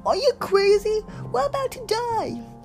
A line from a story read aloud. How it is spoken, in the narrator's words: screamed